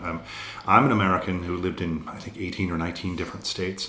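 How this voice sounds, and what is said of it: Mixed, muddled American accent. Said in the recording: “So my accent from America is a bit mucky. ... So God only knows what I sound like.”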